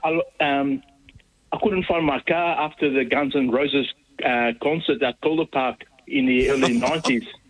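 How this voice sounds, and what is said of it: Mauritian accent, sounds South African. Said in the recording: “Is that a South African accent I detect ... I'm from Mauritius.”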